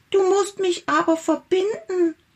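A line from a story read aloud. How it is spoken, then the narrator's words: Little tiger calling out. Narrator (German): rief der kleine Tiger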